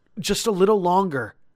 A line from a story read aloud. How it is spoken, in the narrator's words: Tom pleaded